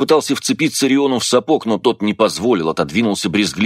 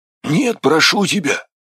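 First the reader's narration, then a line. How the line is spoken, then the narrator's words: Pleading hoarse rasp. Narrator (Russian): умоляюще прохрипел Афрус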